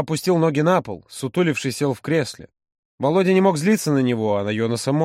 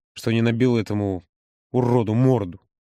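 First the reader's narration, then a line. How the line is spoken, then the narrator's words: Through gritted teeth. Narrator (Russian): процедил он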